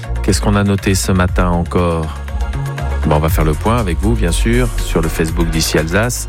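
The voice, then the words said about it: Put-on southern French accent. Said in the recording (French): “sais pas pourquoi je pense cet accent. Un peu étrange ... Vous avez pas vu une météo dans le sud par hasard, c'est peut-être pour ça.”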